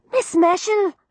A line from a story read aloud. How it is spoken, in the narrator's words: said Florrie anxiously